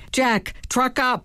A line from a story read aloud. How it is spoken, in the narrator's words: I yelled as I panted behind him